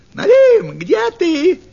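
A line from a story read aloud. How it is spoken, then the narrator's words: Fox shouting. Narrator (Russian): крикнула лисица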